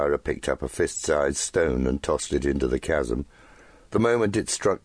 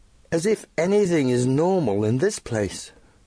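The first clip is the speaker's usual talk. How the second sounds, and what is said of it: Pronounced British accent. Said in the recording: “her British accent as pronounced as ever.”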